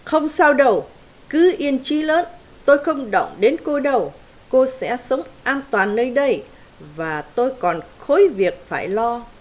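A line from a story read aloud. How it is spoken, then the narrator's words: Booming. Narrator (Vietnamese): Ross nói oang oang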